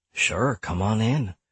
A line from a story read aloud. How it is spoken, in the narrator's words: he mumbled sarcastically